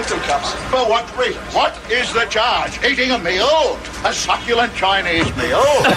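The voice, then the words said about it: Striking accent, theatrical delivery. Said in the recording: “The accent is amazing. The delivery is even more amazing... This is Shakespeare”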